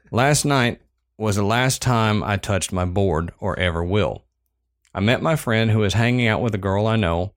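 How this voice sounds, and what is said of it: Strong Southern American accent. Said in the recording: “the Southern accent is bad tonight”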